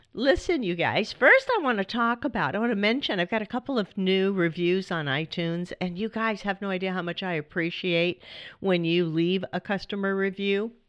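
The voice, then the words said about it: Slightly scratchy, sore-throated voice. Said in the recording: “Please pardon my voice if it's a little weird ... somebody was sharing their cold because now I have it. ... So my voice is just a little scraggly. My throat's a little sore”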